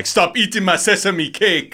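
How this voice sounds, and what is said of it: Weird African accent, Delroy Lindo impression. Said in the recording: “Delroy Lindo has a weird African accent.”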